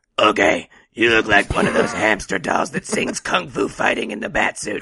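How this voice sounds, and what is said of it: Christian Bale Batman voice impression. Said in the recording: “insult him in your best Batman voice ... Ooh, okay, I'm going to go Christian Bale.”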